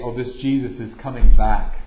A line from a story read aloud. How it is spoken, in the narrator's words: would scoff at that, saying